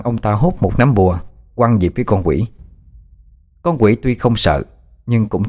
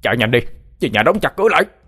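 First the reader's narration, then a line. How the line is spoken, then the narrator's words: Shouted. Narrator (Vietnamese): Thầy Trạch Dương hét lên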